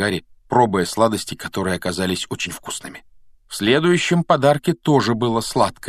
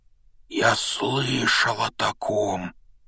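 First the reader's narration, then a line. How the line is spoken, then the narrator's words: Strained choked voice. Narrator (Russian): произнес он сдавленным голосом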